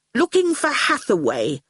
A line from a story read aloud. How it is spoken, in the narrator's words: Howard said rather sulkily